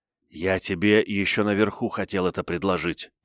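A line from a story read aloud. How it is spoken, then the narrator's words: Whisper. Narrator (Russian): прошептал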